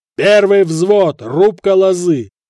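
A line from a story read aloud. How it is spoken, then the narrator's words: Yelling drill instructor. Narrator (Russian): орал дядька-наставник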